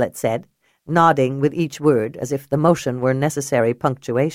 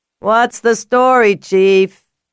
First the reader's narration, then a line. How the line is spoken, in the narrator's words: someone yelled from the back of the crowd